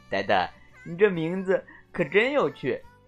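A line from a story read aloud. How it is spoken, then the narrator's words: Chuckling. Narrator (Chinese): 天牛大哥嘿嘿一笑，说道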